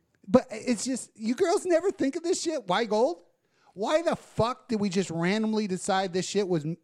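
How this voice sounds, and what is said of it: Usual voice. Nothing is said of it.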